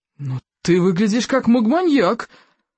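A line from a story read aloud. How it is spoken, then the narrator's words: Exclaimed. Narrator (Russian): воскликнул стоик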